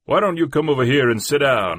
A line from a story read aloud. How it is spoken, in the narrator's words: I said to him rather loudly